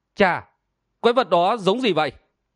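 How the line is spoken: Smiling call. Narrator (Vietnamese): Câu Hồn Bang Chủ mỉm cười và gọi

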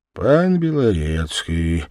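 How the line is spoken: Crumpled voice, judge. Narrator (Russian): мятым голосом проговорил судья

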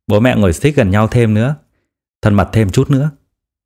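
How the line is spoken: Smiling, laughing speech. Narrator (Vietnamese): mỉm cười, cười nói

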